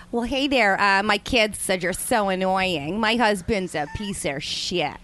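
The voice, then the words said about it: Put-on Midwestern American accent. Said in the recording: “Midwestern ... Let me hear her. ... the Midwestern accent”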